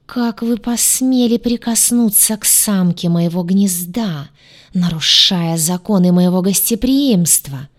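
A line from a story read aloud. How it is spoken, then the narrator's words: Furious hiss. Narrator (Russian): прошипел царствующий, пылая от гнева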